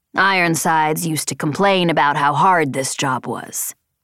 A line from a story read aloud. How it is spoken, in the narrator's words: he grumbled